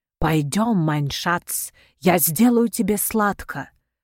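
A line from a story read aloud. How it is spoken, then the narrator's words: Passionate whisper. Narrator (Russian): жарко зашептала Магда на ухо Федору Хафизу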